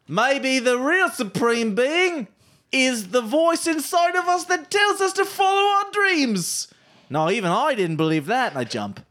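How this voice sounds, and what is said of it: Drifting accent, like Jeremy Clarkson. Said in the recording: “pulling a Jeremy Clarkson ... He sounds a bit like Jeremy Clarkson when his accent is drifting a bit.”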